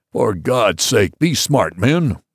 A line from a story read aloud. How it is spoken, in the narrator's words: roared the captain